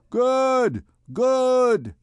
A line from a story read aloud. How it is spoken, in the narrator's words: shouted the populace